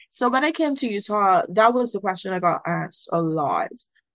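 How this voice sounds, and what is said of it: Barbadian accent. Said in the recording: “Sure, I have an accent ... Barbados”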